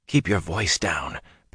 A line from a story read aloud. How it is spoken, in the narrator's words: Perrin whispered